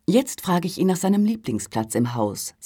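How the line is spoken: Plain. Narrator (German): sagte sie

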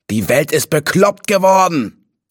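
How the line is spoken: Roaring into wind. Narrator (German): brüllte er in den Wind

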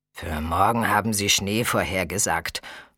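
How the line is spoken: Grumbled. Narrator (German): brummte Camille schließlich

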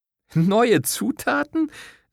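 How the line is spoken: Laughing. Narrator (German): Sara lachte immer noch

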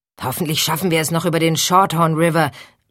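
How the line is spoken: Shouting over thunder. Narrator (German): rief Hank über den fernen Donner hinweg

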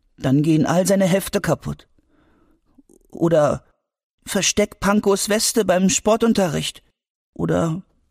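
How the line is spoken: Sad. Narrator (German): sagte Albi traurig

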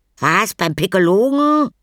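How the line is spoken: Crying out. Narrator (German): schrie Anton auf

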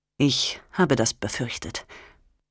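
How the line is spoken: Calm. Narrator (German): sagte er ruhig

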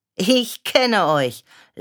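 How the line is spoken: Mother laughing. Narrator (German): lachte Mama

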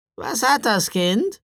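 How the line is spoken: Croaking, raven-like woman's voice. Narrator (German): fragte die Frau, und ihre Stimme krächzte wie die eines Raben

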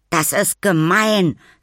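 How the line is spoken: Angry. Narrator (German): sagte er wütend

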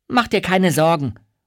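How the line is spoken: Called out. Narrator (German): ruft Miranda

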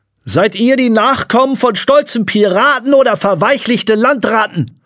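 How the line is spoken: Shouting over wind. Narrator (German): rief sie gegen das Heulen des Windes an

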